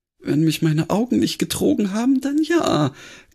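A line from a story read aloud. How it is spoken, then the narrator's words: Sighing reply. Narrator (German): gab Granny seufzend zurück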